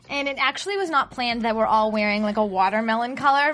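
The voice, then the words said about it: Strong Boston accent. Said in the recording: “I have the obnoxious Boston accent”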